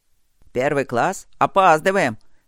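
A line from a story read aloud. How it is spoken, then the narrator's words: Guard's angry grumbling. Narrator (Russian): сердито пробурчал охранник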